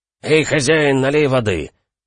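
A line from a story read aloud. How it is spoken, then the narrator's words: Loud bark from doorway. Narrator (Russian): гаркнул с порога пограничник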